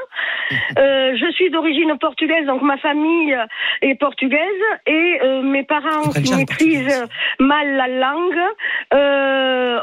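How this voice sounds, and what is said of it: Strong Toulouse French accent. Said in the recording (French): “j'ai un accent très fort toulousain”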